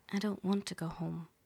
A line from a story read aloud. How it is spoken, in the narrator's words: say softly